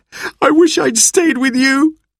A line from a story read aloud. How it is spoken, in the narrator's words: I sobbed